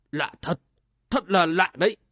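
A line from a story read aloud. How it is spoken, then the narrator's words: Muttering. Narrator (Vietnamese): Quân Trung Thánh ... lẩm bẩm nói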